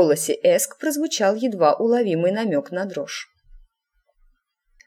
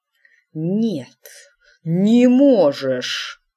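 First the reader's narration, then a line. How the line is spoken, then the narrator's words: Hiss. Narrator (Russian): прошипел он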